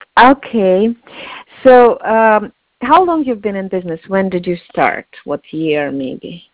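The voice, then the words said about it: Slight Russian accent. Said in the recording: “I'm Russian... You have a little bit accent”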